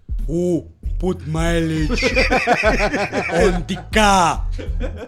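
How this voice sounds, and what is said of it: Imitates another person's heavy accent. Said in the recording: “But that's not how my father sounds. My father has a real big accent.”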